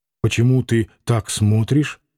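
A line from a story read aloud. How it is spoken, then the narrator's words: Mumbled. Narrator (Russian): пробормотал он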